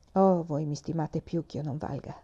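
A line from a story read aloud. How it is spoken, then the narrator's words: Sighing reply. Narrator (Italian): replicò Madama di Clèves sospirando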